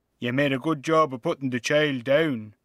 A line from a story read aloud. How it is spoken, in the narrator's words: he says